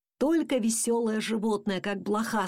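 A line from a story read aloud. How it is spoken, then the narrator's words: Plain. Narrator (Russian): сказал папа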